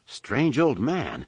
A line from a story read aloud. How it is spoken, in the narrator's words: the stunned Han muttered